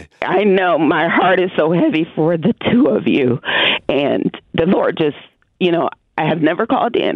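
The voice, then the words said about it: Shaky, emotional voice. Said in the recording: “excuse my voice because I'm a little shaken up today.”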